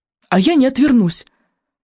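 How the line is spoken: Trembling voice. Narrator (Russian): произнес он дрогнувшим голосом

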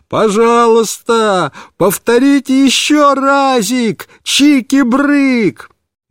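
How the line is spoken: Delighted full-throated shout. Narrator (Russian): Он весь рассиялся от удовольствия и снова закричал папе во все горло

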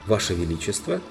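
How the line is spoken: Calmly said. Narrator (Russian): сказал Фам уже спокойно

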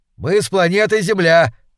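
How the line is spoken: Joyful shout. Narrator (Russian): также радостно крикнул Колесников

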